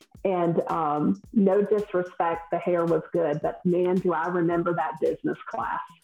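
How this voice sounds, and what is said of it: Southern US accent. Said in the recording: “I'm from the South, if no one can tell by my accent, I'm Southern.”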